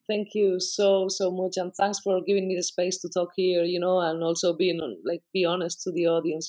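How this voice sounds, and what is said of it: Non-native accented English. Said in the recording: “I hope everyone understands my accent. I apologize beforehand.”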